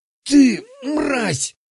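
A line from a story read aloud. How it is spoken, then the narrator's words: Hoarse wheeze. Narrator (Russian): Просипел он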